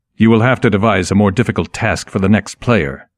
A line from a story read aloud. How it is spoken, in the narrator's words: said sharply